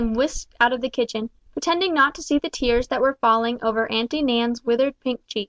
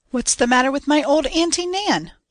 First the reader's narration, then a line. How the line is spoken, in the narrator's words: cried a hearty young voice from the doorway